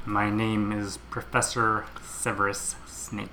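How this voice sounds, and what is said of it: Severus Snape impression, Alan Rickman cadence. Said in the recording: “Your reading of Snape was perfect ... I really nailed that accent ... I don't even call it an accent. A cadence ... A rhythm? ... Your mimicry is astounding ... it's like Alan Rickman's in the room”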